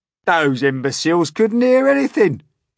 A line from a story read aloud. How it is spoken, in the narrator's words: he cried